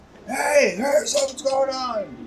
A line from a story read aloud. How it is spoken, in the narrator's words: screaming, getting ruckus